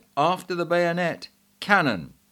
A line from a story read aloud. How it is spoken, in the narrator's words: Colonel Espinasse exclaimed